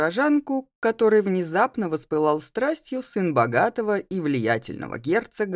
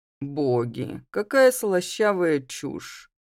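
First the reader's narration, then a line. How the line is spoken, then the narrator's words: Grumbling. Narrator (Russian): проворчала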